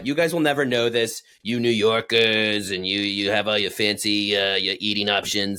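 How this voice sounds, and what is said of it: Poor put-on New York accent. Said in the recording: “That's my New York accent, by the way. ... It was terrible.”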